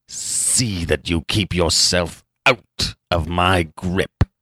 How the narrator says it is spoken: he snarled

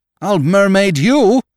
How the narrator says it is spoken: cried

